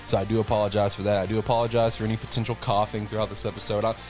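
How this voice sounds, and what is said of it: Sick, under-the-weather voice. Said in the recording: “I'm a little under the weather. You might could tell by my voice.”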